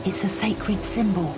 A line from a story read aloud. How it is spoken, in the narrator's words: she replied in a whisper